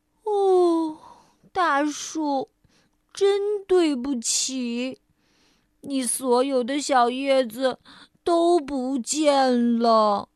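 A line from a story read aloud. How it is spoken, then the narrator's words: Deep sigh. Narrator (Chinese): 菲儿深深的叹了口气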